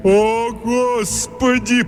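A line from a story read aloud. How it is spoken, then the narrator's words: Muffled groan. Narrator (Russian): простонал Тримбл, пряча лицо в ладонях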